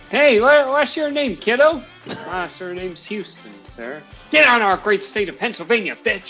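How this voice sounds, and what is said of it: Strong put-on Southern US accent. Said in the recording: “Very strong southern accent”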